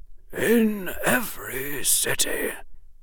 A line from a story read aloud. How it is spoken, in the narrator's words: the old wizard quoted softly